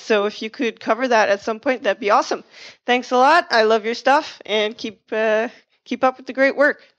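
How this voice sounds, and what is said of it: Canadian accent. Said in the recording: “I love your Canadian accent.”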